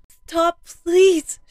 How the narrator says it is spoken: she begged, tears pouring down her face

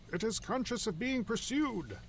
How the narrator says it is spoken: cried the doctor

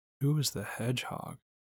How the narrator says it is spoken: Bambi asked cheerfully

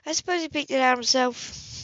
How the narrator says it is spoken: Marty said

